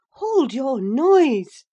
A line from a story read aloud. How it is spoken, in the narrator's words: cried I, hastily, enraged at her clamorous manner